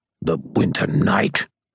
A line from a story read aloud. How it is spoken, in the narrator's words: Corp spat